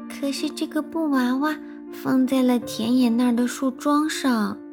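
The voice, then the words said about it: Quiet, soft-spoken voice. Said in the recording (Chinese): “小声说”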